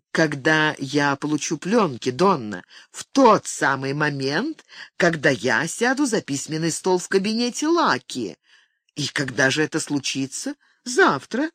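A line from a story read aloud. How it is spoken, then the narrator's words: Plain. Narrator (Russian): сказала Донна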